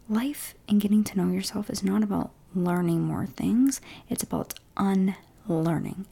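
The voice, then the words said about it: Soft-spoken whisper. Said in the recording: “this podcast is soft-spoken and whispering.”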